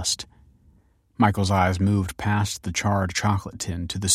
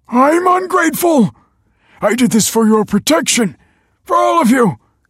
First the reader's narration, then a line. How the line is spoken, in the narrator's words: cried Michael